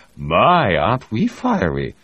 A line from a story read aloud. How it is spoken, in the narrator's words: Reed laughed